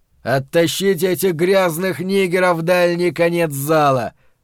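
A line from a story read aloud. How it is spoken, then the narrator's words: Roaring. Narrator (Russian): проревел Билл Арнольд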